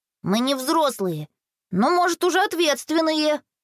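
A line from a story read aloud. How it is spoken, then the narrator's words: Grumbling. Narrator (Russian): ворчал Боря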